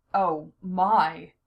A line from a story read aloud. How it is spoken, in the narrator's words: he sighed